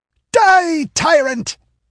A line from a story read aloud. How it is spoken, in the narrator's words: screamed the mad minstrel